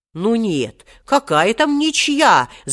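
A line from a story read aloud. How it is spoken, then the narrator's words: Protesting. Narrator (Russian): запротестовал Хоттабыч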